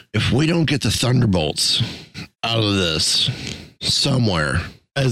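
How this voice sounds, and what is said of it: Usual voice. Nothing is said of it.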